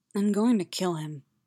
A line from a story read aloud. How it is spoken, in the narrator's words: she murmured